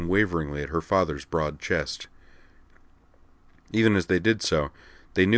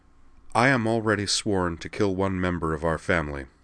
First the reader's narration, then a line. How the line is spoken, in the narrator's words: said Amanda calmly